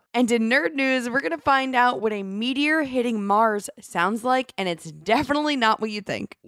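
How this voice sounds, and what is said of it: Slightly raspy voice. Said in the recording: “My voice might be a little raspy,”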